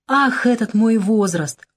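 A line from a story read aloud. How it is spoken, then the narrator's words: Exclaiming. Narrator (Russian): воскликнул я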